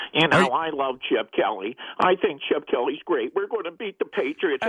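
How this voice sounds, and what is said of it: Imitation of a press-room regular. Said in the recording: “do a little imitation for you people right now and tell me who I am ... It's the fellow that always asks the same question in the press room”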